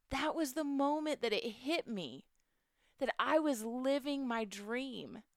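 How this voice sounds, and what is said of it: Emotional, fighting back tears. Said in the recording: “I get a little emotional. I'm going to try. I'm going to not cry. I can do it. ... I get emotional”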